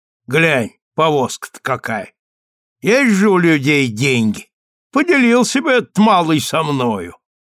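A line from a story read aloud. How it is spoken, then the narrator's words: Loud hateful voice. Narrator (Russian): Ненавистью проникнутая фраза прозвучала громко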